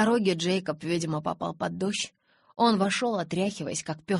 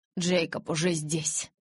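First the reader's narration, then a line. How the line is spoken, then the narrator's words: Forced out with effort. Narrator (Russian): через силу выдавил Эдвард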